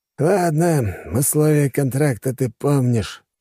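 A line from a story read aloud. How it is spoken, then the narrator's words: Sighing. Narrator (Russian): вздохнул Душилин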